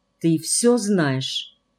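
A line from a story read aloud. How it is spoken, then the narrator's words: Soft quiet question. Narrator (Russian): Ангелина Ефимовна спросила тихонько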